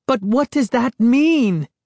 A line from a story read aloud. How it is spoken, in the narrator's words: Sari cried